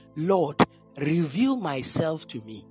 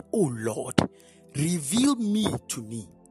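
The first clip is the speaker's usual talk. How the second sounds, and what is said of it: Nigerian accent. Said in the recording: “It is a Nigerian accent I just said. Let me bring it to a normal English.”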